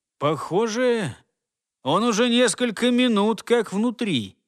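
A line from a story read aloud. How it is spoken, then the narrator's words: Uncertain mutter. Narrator (Russian): неуверенно проговорил себе под нос человек в форме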